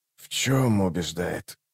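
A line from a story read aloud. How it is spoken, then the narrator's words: Sinister questioning tone. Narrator (Russian): зловещим тоном спросил убийца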